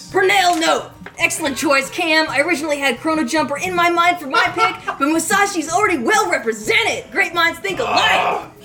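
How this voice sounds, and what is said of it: Raspy, phlegmy impression of a colleague. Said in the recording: “It was a good impression. ... It's like you just ate like a lot of horseradish. You're just getting it all out. ... ruining my vocal cords. ... The Purnell phlegm.”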